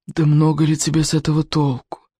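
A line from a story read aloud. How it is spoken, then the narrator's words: Weary. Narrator (Russian): устало продолжал он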